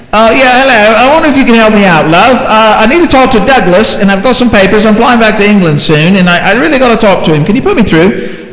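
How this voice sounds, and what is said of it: Put-on English accent. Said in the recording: “Liz Kern was from England, right? The cute little accent and everything”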